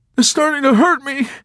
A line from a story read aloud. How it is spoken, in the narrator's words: Snowden cried out suddenly with a plaintive, urgent wince